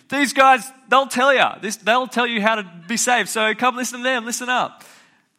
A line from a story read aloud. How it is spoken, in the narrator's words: screaming